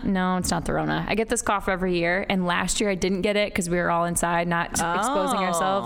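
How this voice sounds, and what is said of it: Scratchy, slightly hoarse voice. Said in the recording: “sorry about my voice if it sounds a little scratchy”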